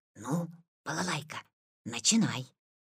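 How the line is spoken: Quiet. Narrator (Russian): сказал тихо

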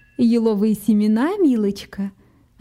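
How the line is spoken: Plain. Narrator (Russian): ответила миссис Раббит

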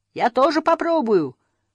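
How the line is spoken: Shouting. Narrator (Russian): крикнул Мумитроль

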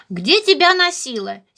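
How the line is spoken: Angry question. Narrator (Russian): сердито спросил Харви у друга

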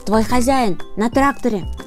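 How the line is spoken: Crow shouting. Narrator (Russian): закричал ворон

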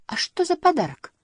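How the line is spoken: Exclamation. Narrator (Russian): воскликнул Сниф

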